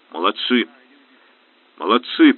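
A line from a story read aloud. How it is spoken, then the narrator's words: Grumble. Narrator (Russian): проворчал Железовский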